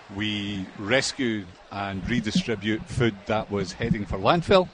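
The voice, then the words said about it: Speaks with a noticeable accent. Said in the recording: “I'm loving your accent so far”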